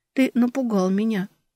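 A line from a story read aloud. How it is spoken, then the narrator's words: Quiet. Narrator (Russian): ответила тихо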